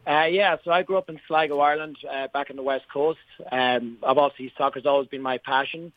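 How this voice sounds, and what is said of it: Irish accent. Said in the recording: “love the accent, right? We love talking to people from Ireland, always from the northwest coast of Ireland.”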